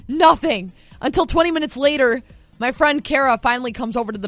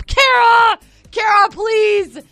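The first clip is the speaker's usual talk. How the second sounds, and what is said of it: Yelling for help. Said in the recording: “I'm yelling to her for help.”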